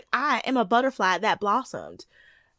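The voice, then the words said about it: Put-on Southern accent. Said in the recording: “you can't talk about Lacey without doing a Southern accent”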